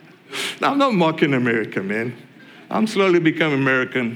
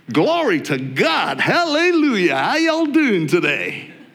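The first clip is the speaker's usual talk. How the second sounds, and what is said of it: Put-on American accent. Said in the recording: “if you have an American accent, then you are a cool pastor”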